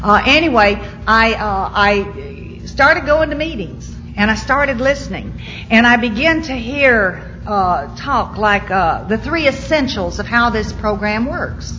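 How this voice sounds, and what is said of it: Southern US accent. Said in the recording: “if y'all have a little trouble understanding me, I know there's some people here that talk like me... they tell me at home I don't speak English. I speak Southern.”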